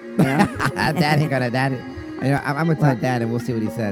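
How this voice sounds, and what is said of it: Sick, slightly off-sounding voice. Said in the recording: “I've been sick for the past week. That's why. So I my voice might sound a little funny”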